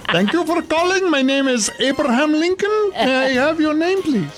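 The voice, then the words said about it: Put-on Indian accent. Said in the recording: “an Indian accent, ... I don't do one of those very well ... You actually do ... That was pretty good”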